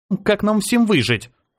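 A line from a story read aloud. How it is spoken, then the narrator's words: Irritated blurt. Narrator (Russian): раздраженно выпалила она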